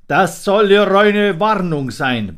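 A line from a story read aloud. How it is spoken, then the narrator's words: King roaring. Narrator (German): brüllte der König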